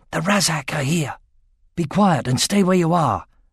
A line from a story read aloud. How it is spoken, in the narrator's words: Roran returned to the camp, whispering